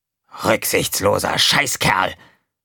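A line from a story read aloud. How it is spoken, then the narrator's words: Angry. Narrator (German): Wütend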